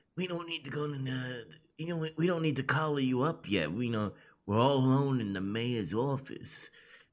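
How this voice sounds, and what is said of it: Puts on an accent. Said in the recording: “You're good at doing that accent.”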